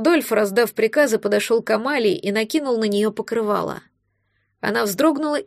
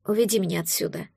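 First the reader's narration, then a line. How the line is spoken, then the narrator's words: Girl's quiet plea. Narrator (Russian): тихо попросила девушка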